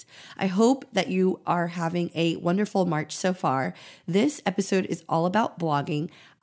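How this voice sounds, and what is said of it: Scratchy, nearly lost voice. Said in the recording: “my voice is a little bit very gone today... my scratchy voice”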